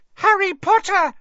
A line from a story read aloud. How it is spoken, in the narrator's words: she squealed